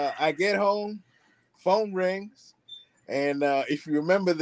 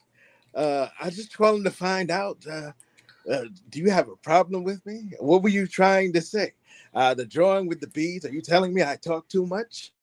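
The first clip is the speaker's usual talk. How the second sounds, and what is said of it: Sing-songy imitation of another person's voice. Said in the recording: “the sing-songy talk of Professor X ... my terrible Professor X imitation”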